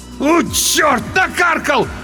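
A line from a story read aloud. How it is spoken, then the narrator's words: Loud wail. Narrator (Russian): в голос взвыл тот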